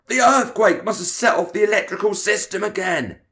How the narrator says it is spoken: he shouted

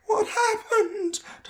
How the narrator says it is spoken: Tom asked, his voice sounding thin and scared

